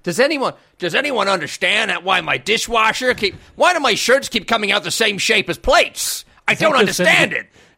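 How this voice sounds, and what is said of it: Yosemite Sam-style American accent. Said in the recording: “Is that Yosemite Sam again? ... I don't know where he's from in America ... I think he's Oklahoma ... it's pretty much your Yosemite Sam”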